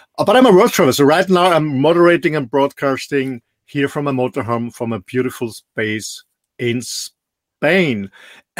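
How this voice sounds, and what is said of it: Austrian-accented English. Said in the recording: “as you can hear from accent, I'm not a Native American or British English speaker. I'm born in a beautiful small country in the middle of Europe, in Austria.”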